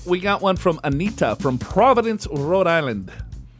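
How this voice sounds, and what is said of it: Put-on accent. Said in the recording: “I don't know why I said that with an accent.”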